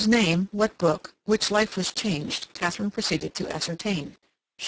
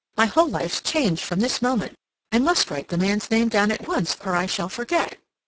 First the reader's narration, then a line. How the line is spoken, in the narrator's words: Cassandra exclaimed